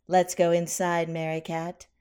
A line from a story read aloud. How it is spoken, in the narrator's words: Constance said with a little laugh